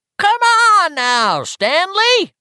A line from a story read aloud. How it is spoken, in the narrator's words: Richie said in a shrill falsetto